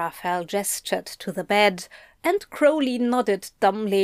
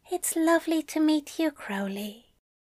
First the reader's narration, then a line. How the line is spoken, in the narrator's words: Aziraphale whispered